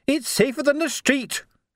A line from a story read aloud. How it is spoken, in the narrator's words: she yelled back